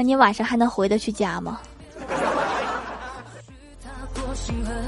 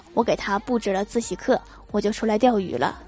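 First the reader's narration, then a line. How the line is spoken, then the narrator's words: Flat calm voice. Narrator (Chinese): 郭大侠淡淡的说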